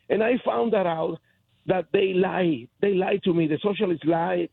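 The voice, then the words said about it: Speaks English with a foreign accent. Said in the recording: “I'm proud of my accent.”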